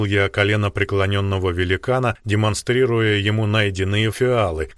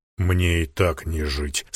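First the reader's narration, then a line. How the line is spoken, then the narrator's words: Lifeless grief-stricken voice. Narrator (Russian): совершенно безжизненным голосом произнес убитый горем полуогр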